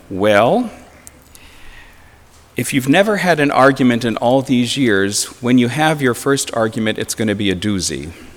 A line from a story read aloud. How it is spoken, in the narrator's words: the pastor gently warned them